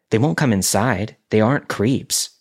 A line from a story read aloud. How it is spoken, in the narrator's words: she said